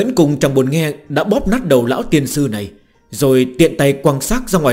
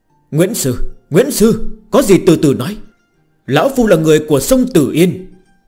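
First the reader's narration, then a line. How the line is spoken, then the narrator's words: Old man frantically pleading. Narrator (Vietnamese): Ông già cầu xin rối rít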